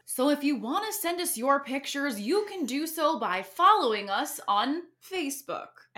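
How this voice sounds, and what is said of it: Mock news anchor voice. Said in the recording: “I said I would read this in my news voice”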